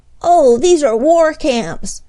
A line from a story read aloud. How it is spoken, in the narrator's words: exclaimed Freddie when he saw the white tents